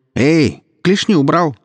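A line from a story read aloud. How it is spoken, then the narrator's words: Shouted. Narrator (Russian): крикнула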